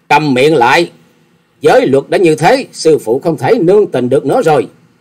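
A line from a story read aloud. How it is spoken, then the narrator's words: Angry loud shout. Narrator (Vietnamese): Hà Xà Tiên Tử giận dữ quát to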